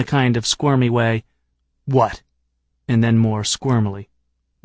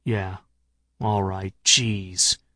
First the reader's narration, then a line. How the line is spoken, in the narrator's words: he said, muttering